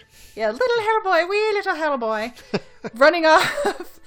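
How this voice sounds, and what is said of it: Put-on Irish accent. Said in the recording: “My Irish accent is so good.”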